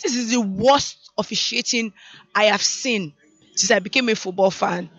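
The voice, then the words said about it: Hoarse, strained voice. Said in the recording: “I've lost my voice.”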